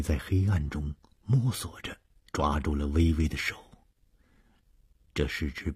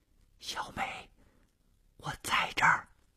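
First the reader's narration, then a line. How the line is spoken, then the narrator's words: Soft reply in darkness. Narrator (Chinese): 黑暗中传出了同样轻声的回答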